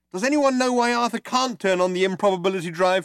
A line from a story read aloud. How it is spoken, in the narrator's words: shouted Trillian